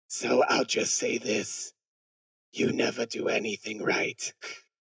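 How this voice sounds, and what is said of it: Hoarse sore-throat character voice. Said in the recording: “my throat hurts from my throat hurts from laryngitis ... That was a great impression.”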